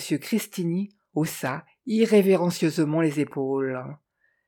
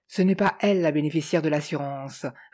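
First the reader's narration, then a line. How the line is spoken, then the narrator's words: Male sneering laugh. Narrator (French): ricana-t-il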